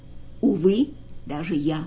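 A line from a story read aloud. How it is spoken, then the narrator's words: Calm reply. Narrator (Russian): спокойно ответил гость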